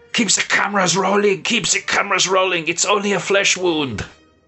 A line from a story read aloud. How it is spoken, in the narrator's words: he screams out